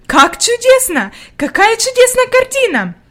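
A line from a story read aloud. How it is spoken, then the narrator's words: Exclaiming. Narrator (Russian): воскликнула она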